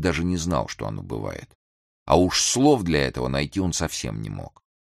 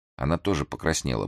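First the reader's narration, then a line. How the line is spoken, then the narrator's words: Grumbled. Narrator (Russian): буркнул Грым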